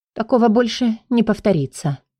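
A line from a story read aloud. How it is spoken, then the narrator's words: Quiet, innocent. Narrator (Russian): произнесла тихо и невинно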